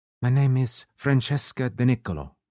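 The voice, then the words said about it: Italian accent. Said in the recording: “dropping all pretenses and picking up an Italian accent.”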